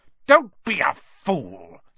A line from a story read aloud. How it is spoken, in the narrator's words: snarled